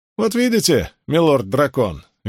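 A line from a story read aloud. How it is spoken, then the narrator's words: Cheerful. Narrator (Russian): весело произнес Асмодиан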